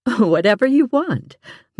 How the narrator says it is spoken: Mom laughed

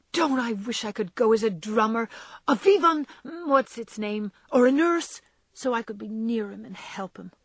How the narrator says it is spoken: exclaimed Jo with a groan

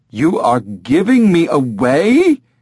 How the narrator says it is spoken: Gerard said in a horrified tone

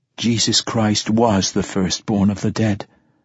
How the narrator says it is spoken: Aeneas said softly

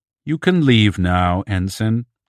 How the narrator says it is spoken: the Mindy said

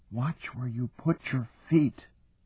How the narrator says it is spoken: She whispered

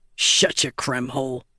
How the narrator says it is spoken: Gaz grumbled

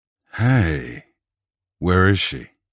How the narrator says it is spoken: Rennert said, the concern reflected in his deep voice

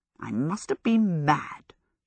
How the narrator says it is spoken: she muttered

